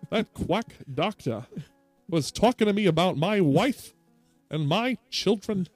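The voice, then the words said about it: Old-timey Transatlantic accent. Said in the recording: “The Atlantic accent”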